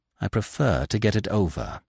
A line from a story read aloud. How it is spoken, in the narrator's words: she said in a low tone, a spasm of pain crossing her face